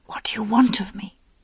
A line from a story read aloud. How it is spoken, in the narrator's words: Morgaine whispered